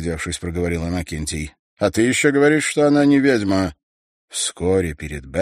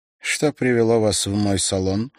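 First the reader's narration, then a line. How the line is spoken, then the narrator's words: Dry question. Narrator (Russian): сухо спросила она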